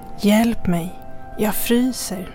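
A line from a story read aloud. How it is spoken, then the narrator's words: Hissed. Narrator (Swedish): väser han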